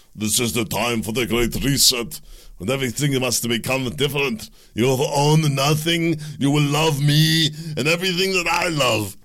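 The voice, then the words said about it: Mock foreign-accented impression. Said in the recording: “That's kind of my take on his accent.”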